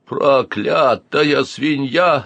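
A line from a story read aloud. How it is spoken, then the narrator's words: Stunned growl. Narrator (Russian): зарычал обомлевший Витька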